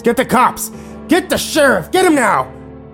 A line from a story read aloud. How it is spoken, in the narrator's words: He began screaming at the top of his lungs